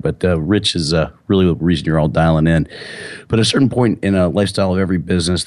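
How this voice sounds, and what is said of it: Slightly hoarse voice. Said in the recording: “I'm a little hoarse. I went to the Pittsburgh Penguins San Jose Sharks game, and my son and I kind of jammed to tunes the whole way there and back.”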